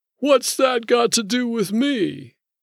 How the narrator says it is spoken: The guy with the officious voice chuckled in a phony way

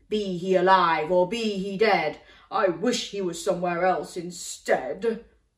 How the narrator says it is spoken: roared the giant

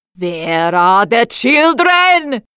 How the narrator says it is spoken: she shouted

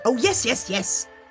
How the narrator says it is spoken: snapped the Emperor

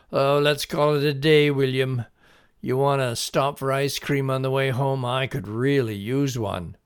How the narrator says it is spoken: his father called out

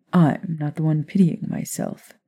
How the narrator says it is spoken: Remus insisted with a chuckle

